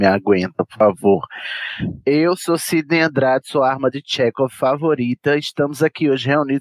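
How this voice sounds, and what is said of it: Usual voice. Nothing is said of it.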